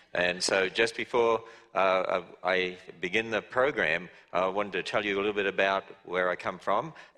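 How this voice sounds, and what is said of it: Speaker's own English accent. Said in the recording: “just so you get used to my accent, because I speak real English”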